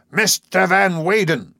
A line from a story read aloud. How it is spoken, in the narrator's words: cried, and I heard through the tumult as one might hear a whisper